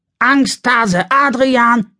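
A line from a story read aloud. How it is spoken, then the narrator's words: Shouting along. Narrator (German): brüllt Alex sofort mit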